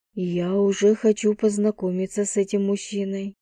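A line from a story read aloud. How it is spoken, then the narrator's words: Soft. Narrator (Russian): негромко произнесла она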